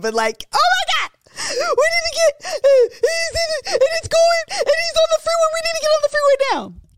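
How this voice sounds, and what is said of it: Yelling, panicked voice. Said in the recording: “Sorry if I'm yelling”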